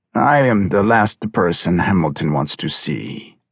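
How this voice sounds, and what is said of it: Strong Russian-sounding accent. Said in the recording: “The strong accent made her suspect he originated from the Soviet area.”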